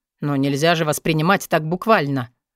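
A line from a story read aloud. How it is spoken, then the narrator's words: Smiling hiss. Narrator (Russian): улыбаясь, прошипел Стил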